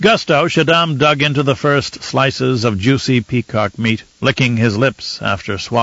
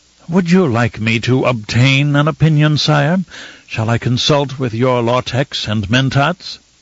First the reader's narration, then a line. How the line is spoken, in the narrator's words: With an exaggerated sigh of forced patience, Fenring said